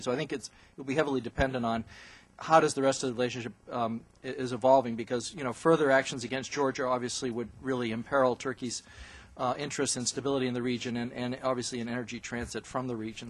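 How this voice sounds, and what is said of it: Strained, failing voice. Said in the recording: “my voice is failing now”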